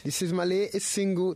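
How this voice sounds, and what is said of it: Odd put-on accent. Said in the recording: “Don't ask me what that accent was”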